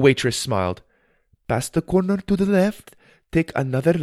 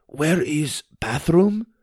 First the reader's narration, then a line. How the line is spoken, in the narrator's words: He asked in a pathetic Russian accent